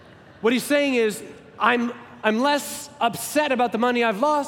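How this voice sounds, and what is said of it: Usual voice. Nothing is said of it.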